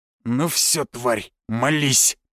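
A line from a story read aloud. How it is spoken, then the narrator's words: Menacing growl. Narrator (Russian): прорычал он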